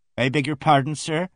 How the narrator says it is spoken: raised my voice

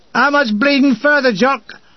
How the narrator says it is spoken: We shout through the canvas of the driver's seat

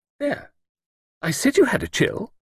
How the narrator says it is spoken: Lucilla Drake exclaimed triumphantly

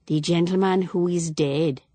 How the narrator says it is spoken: she added gravely

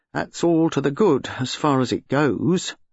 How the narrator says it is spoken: Slack explained gloomily

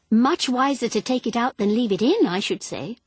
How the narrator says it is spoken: said Elaine

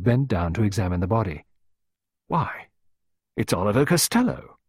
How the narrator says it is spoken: Sir Roland exclaimed

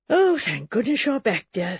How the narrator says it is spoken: said the Reverend Julian Harmon, with affection and a sigh of content

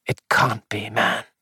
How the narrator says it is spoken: he murmured

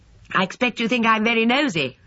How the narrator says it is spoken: she said cheerfully

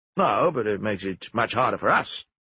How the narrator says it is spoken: Jap grumbled

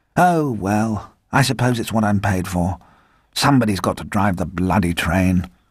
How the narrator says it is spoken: He said gloomily

